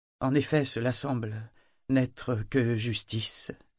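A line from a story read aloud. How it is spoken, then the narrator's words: Hesitant tone. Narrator (French): dit-elle d'un ton hésitant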